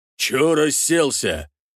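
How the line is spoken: Growled. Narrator (Russian): прорычал Раштент

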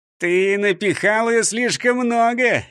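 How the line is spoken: Snide laugh. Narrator (Russian): ехидно засмеялся Бенгтсен

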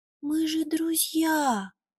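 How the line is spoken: Softly. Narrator (Russian): мягко сказал Буба

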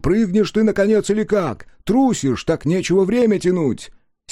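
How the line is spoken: Irritated shout. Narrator (Russian): Кто-то раздраженно крикнул

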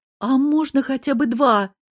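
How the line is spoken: Pleading. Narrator (Russian): взмолилась Эбби

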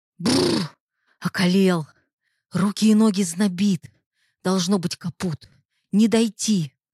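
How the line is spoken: Trembling, stammering voice. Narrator (Russian): дрожащим голосом, заикаясь, проговорил последний

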